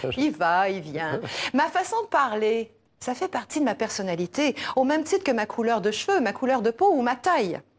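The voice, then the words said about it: Québécois French accent. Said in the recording (French): “j'ai un accent parce que je parle comme les habitants du Québec”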